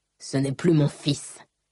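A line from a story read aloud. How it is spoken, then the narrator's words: Father growling. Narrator (French): gronda papa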